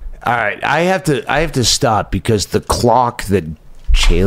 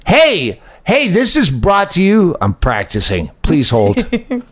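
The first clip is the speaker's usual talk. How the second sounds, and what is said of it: Announcer voice. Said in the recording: “put on my announcement voice.”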